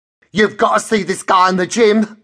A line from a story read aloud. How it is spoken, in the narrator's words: she says in a loud, androgynous Cockney voice, oblivious to the couple of customers browsing the rails